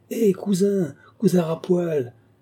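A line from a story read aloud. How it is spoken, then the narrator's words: Bellowing with an accent. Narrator (French): hurlait à tue-tête avec l'accent de Margouilly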